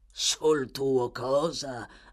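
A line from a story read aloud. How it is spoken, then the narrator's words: Snarling with disgust. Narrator (Italian): ringhiò con sommo disgusto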